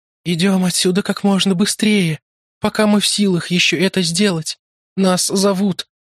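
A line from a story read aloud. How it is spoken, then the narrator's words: Muffled, distant voice. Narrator (Russian): сказала она, и голос ее звучал глухо, как будто она находилась не рядом с нами, а где-то очень далеко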